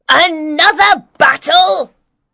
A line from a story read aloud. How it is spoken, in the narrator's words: cried an angry woman